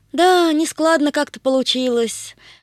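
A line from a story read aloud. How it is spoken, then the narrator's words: Sigh. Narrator (Russian): вздохнул невесть, откуда появившийся Тришка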